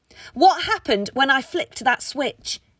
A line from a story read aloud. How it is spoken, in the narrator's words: Jane asked, close to screaming